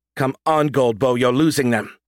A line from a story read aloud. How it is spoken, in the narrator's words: said sharply